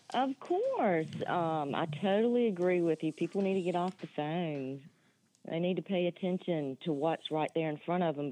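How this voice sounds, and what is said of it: North Carolina Southern accent. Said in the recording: “From North Carolina ... Don't disguise that accent. Let it go. I need all of it.”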